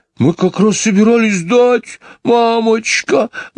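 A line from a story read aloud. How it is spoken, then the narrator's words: Frightened. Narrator (Russian): начала мисс Анни испуганно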